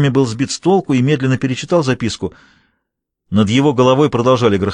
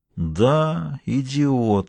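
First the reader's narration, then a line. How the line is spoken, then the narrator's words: Quiet. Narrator (Russian): произнес он негромко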